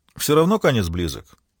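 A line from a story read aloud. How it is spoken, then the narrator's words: Flippant tone. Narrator (Russian): проговорил он легкомысленным тоном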